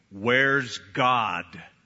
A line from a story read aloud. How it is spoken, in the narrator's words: the preacher, in a deep booming voice, said